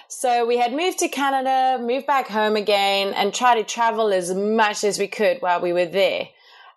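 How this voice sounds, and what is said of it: South African accent. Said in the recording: “We come from South Africa, in case anyone was wondering what the weird accent is.”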